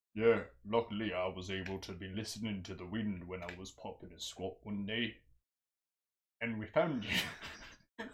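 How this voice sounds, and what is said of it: Scottish-sounding character voice. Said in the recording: “What is this accent? He sounds like Tiffany and some Scottish Tiffany. He's a Scottish Tiffany.”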